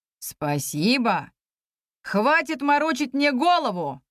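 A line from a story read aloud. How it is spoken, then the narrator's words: Barked. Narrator (Russian): рявкнул судья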